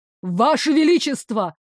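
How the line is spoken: Father's exclamation. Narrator (Russian): воскликнул отец Лары

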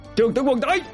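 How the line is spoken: Shouting from a crowd. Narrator (Vietnamese): Đằng sau đám kỵ binh đã tụ lại, có tiếng la hét

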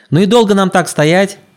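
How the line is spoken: Impatient distant shout. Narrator (Russian): Нетерпеливо выкрикнул с палубы толстый коротышка

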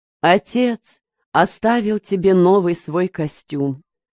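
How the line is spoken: Plain. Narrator (Russian): сказала мать

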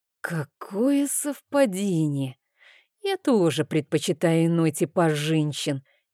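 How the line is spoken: Through gritted teeth. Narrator (Russian): процедил Рейн

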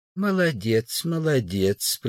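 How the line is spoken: Kind old man's voice. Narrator (Russian): произнес добрым голосом старик

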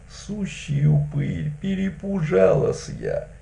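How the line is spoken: Thin voice. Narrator (Russian): Тонким голосом сказала

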